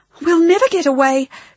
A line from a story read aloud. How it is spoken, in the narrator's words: gasped Maddie